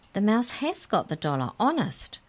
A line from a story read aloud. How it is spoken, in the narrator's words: cried Mallory